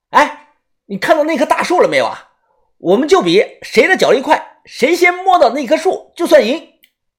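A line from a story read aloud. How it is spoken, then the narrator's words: Loud. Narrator (Chinese): 小道士大声的又说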